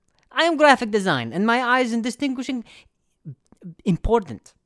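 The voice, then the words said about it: Imitated foreign-accented English. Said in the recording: “read this in his accent.”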